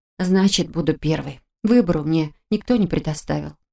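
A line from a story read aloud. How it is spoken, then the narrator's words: Sullen grumble. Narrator (Russian): хмуро буркнул я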